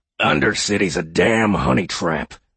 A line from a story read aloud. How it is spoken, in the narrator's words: he said gruffly